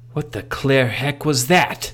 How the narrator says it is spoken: exclaimed

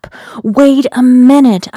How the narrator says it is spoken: I shouted

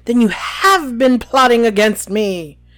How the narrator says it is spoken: he yelled

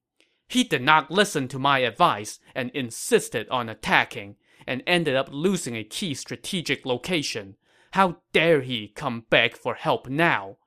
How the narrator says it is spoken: Cao Hong said angrily

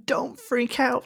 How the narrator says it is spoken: she begged

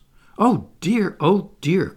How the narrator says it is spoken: cried Wendy

